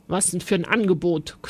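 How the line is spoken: Growl. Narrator (German): knurrte

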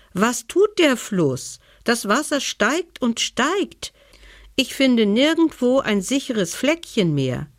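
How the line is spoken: Bear calling out. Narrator (German): rief der Bär

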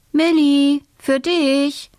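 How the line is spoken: Mother calling. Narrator (German): ruft Mama

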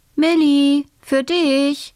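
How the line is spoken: Calling out. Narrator (German): ruft Mama

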